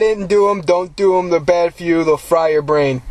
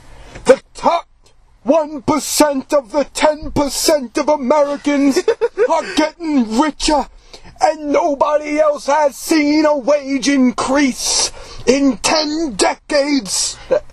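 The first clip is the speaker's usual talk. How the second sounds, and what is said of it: Imitates another person's voice. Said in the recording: “That was my Bernie Sanders impression.”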